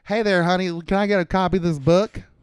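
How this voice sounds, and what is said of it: Exaggerated Southern US accent. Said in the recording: “you're saying it with like a little bit of an inflection, like a southerner”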